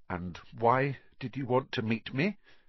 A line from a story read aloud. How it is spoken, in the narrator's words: said Harry